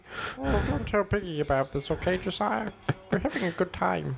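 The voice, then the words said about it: Bad Fozzie Bear character impression. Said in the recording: “it's me, Fozzie Bear ... These are some of the worst impressions you've ever done.”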